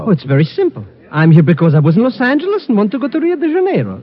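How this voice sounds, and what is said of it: Speaks with a foreign accent. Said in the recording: “Miss Brooks likes your accent.”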